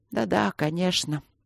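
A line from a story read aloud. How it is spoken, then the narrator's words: Sad old man's mutter. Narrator (Russian): грустно пробормотал старик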